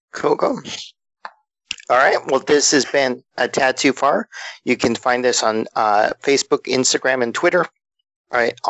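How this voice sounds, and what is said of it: Hoarse, fading voice. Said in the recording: “Sorry, I'm losing my voice. ... Hey, he's losing his voice.”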